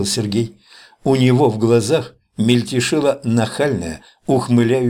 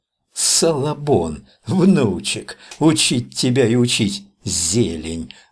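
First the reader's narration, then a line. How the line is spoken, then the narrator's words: Nasty remembered whisper. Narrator (Russian): Звучало у него в ушах противным шепотком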